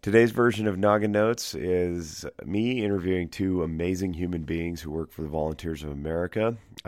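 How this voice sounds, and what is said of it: Congested, stuffy-nosed voice. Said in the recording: “This is the stuffed nose version... I'm a little bit under the weather, which is why my voice sounds like I've been practicing for old-time AM radio”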